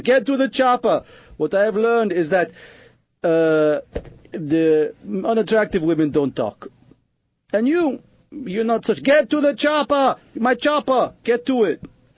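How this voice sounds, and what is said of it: Put-on foreign accent. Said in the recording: “I turn into you with my accent.”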